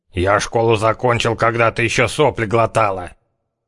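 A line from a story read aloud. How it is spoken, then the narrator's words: Snapping, spoiling for a fight. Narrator (Russian): огрызнулся Зяблик, кровь которого уже закипала в предвкушении близкой схватки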